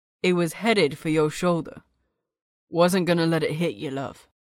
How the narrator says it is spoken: he said flatly

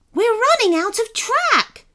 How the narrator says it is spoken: shouted Sebastian

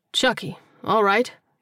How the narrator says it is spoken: Terrell said, keeping his tone relaxed

